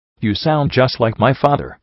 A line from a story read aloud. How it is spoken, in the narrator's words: said